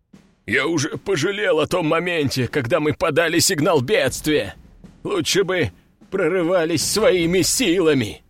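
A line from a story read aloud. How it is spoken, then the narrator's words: Weary groan. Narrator (Russian): Простонал он, вспомнив, как довольно простая миссия затянулась на 3 дня, и в итоге ему пришлось полетать на воздушном линкоре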